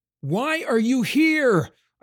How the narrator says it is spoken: I screamed over the maelstrom

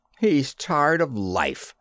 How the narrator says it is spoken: snarled Jetter, hidden in the ranks

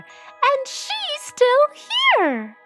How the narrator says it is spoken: squeaked the baby bear

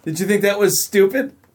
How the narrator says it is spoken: Maren laughed

